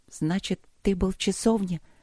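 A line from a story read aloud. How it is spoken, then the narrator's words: Absent-minded mutter. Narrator (Russian): Пробормотала она рассеянно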